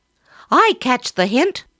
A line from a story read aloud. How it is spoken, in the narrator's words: cried